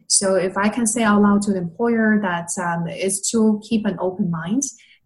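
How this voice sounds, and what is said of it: Speaks English with an accent. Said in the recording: “having an accent”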